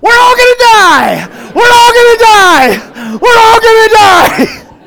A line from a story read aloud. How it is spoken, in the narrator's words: some lady in the back decided it was a good idea to just start screaming at the top of her lungs